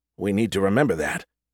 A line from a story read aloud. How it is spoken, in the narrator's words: I muttered softly, encouraging him to keep talking